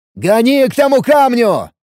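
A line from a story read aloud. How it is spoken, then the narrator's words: Shouting over a storm. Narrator (Russian): заорал я, пытаясь перекричать шум бури и грохот грома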